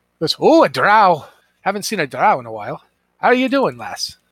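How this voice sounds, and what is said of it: Put-on Scottish accent. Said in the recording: “I'm Scottish. I don't know why. Apparently, the dungeon master just pulled out Scottish accents.”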